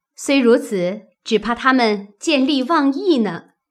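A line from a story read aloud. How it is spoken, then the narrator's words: Laughing. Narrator (Chinese): 探春笑道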